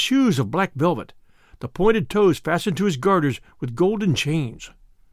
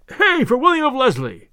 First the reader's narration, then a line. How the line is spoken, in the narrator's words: shouted others yet again